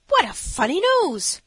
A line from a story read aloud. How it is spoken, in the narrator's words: cried the one